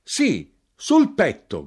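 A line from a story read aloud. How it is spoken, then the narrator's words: Shouted. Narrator (Italian): gridai io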